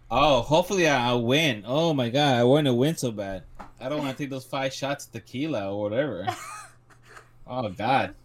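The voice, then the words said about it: Sarcastic, exaggerated delivery. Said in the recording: “Is that sarcasm? ... he's being sarcastic.”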